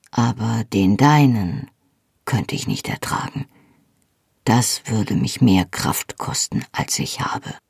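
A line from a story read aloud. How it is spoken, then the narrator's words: Said softly. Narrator (German): sagte er leise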